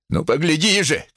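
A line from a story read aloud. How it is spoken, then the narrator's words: Shouting. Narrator (Russian): кричал он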